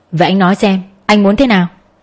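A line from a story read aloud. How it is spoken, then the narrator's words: Firm woman's voice after silence. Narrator (Vietnamese): cô ấy im bặt hồi lâu rồi hỏi bằng giọng cứng cỏi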